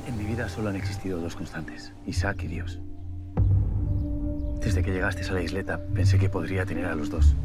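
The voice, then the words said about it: Galician-accented Spanish. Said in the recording (Catalan): “amb accent gallec”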